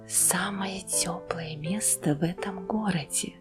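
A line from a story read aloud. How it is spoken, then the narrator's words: Whisper. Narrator (Russian): прошептал он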